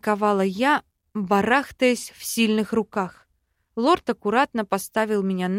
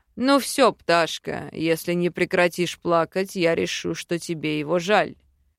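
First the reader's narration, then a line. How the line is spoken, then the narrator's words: Deep bass voice. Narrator (Russian): пробасил Айкальд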